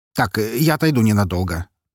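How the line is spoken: Hurried. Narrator (Russian): торопливо сказал он

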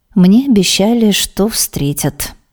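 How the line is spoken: Pleasant sing-song impatient voice. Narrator (Russian): не выдержав, сообщает она своим приятным певучим голосом

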